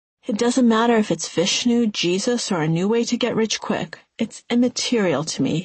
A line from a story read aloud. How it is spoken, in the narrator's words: he had said